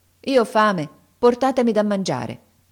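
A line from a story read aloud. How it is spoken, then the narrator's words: Firm tone. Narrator (Italian): Aladino rispose con tono fermo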